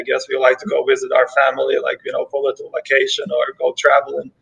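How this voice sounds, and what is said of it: Ukrainian-accented English. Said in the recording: “that accent, it's either like a deep, deep Boston accent or from someplace else ... I'm from Ukraine. I was born and raised in Ukraine”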